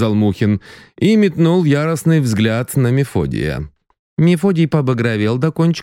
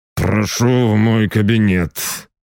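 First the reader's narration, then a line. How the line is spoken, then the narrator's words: Through gritted teeth. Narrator (Russian): процедил сквозь зубы Мухин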